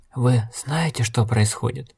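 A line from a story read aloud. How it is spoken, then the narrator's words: Suddenly hoarse voice. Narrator (Russian): Вдруг севшим голосом спросил Дакар, и Логерт увидел страх в его глазах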